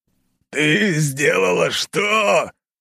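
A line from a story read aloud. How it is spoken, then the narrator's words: Roar. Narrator (Russian): взревел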